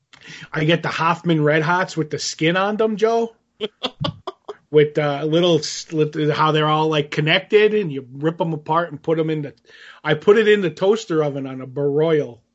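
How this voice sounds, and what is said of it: Nondescript, vaguely Chicagoan put-on accent. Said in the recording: “some sort of accent that I'm not following ... a random, you know, nondescript accent ... It sounded more Chicagoan than anything else.”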